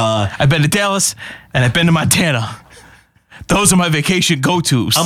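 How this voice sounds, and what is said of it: Usual voice. Nothing is said of it.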